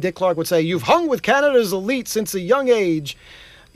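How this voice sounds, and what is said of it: Booming radio announcer voice. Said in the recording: “I have to do this in my full announcer voice”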